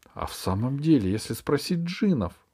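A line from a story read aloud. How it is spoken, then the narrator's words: Exclaiming. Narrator (Russian): воскликнула фея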